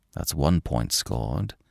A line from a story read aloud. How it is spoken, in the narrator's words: he muttered